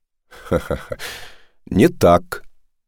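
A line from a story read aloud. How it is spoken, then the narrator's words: Laughing. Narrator (Russian): смеясь, Кудайкам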